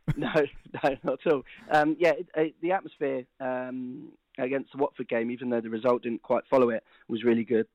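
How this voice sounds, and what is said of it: Voice strained, not yet recovered. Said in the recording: “You can probably hear from my voice. it's still not quite recovered.”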